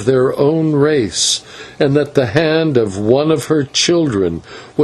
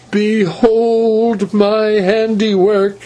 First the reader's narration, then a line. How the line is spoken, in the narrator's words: she cried